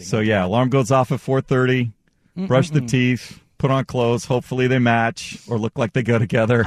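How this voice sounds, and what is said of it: Slightly raspy voice. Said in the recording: “it's a little raspy after a Pilots game last night”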